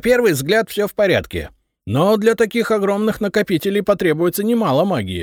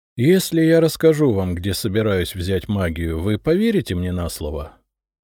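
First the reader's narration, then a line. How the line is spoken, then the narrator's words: Weary question. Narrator (Russian): устало спросил я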